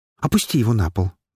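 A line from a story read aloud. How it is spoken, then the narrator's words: Quick. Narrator (Russian): быстро произнесла Афина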